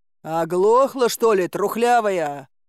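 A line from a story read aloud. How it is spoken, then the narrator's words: Roar. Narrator (Russian): взревел Добрыня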